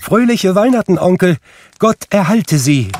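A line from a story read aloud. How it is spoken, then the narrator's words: Cheerful call. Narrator (German): rief da eine heitere Stimme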